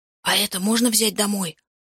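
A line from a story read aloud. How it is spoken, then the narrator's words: Whispering. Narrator (Russian): шепнул я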